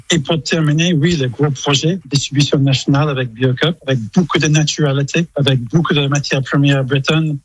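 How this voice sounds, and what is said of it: English accent speaking French. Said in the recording (French): “J'adore le petit accent, vraiment, ben oui. Ça c'est craquant, l'accent anglais”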